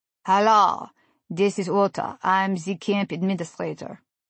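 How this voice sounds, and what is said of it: Monotone Eastern European accent. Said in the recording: “had a strong Eastern European accent and a monotone way of speaking that brought to mind a Russian prison guard”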